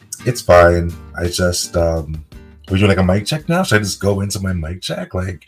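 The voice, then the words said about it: Congested, sick-sounding voice. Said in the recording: “as you guys can hear, I have a bit of a cold.”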